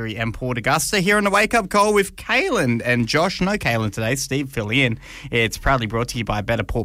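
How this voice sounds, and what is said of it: Usual voice. Nothing is said of it.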